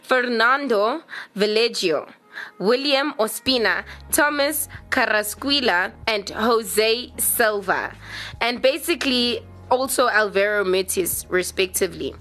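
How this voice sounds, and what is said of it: Attempted Spanish accent on names. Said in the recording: “I'm going to say this in the best accent I can, please don't crucify me”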